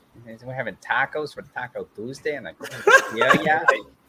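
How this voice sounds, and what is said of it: Put-on Minnesotan accent. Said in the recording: “tell a joke in your best Minnesotan accent.”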